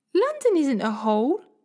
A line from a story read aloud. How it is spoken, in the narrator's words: said Polly indignantly